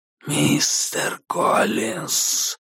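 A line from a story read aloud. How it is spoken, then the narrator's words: Hissed. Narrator (Russian): прошипела черная фигура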